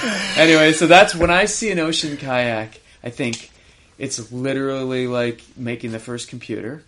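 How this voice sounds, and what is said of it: Usual voice. Nothing is said of it.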